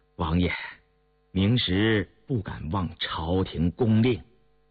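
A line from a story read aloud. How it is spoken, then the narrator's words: Faint smile, firm even tone. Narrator (Chinese): 杨明石淡淡一笑…不软不硬地说道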